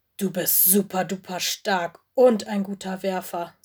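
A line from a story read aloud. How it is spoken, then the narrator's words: Plain. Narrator (German): sagte Mino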